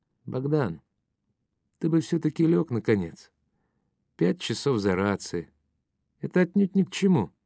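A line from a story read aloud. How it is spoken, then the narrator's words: Calm. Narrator (Russian): спокойно сказал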